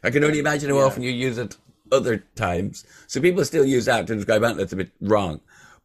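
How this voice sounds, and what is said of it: Irish accent. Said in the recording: “that sounds a bit Irish ... you can hear my accent.”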